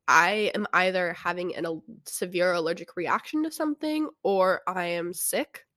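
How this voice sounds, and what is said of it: Congested, stuffy-nosed voice. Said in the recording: “might notice I sound a little different ... my nose is stuffed up. That's why I sound different.”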